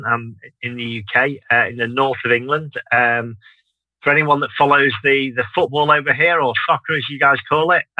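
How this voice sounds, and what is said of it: Northern English Manchester accent. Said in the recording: “I'm based in Manchester, as you may be able to tell by the accent.”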